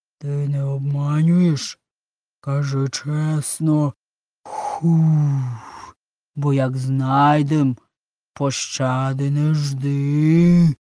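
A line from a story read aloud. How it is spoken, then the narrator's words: Menacing growl. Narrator (Ukrainian): грізно прогарчав Змій Горинич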